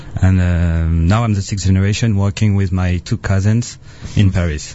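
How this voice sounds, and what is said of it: Foreign-accented English. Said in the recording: “don't you love the accent? ... I'm sorry for my accent.”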